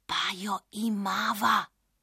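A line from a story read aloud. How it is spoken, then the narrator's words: Whisper, little witch. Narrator (Slovenian): je šepnila coprnička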